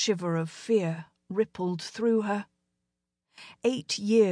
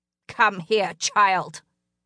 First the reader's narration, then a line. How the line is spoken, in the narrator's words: snarled